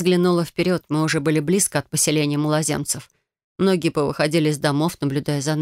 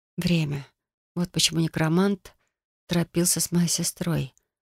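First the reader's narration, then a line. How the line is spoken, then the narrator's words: Whispering. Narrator (Russian): прошептала я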